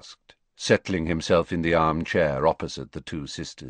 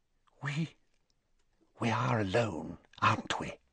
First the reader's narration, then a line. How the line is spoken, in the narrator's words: Narcissa asked quietly